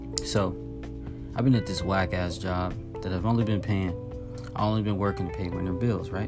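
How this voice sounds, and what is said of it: Low, down-sounding tired voice. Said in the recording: “it may sound like I'm a little down ... the tone of my voice may sound down”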